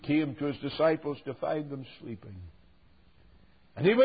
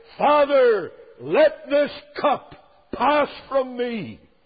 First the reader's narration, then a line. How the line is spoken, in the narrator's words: He cried